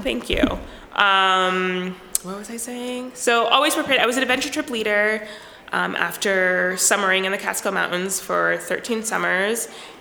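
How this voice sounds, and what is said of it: US East Coast accent. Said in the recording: “I grew up on the East Coast ... Your accent.”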